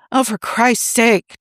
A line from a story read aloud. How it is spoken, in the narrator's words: Tony muttered